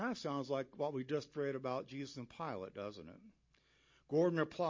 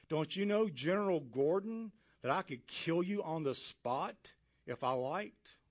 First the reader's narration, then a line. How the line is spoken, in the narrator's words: the cruel King John of Abyssinia snarled at him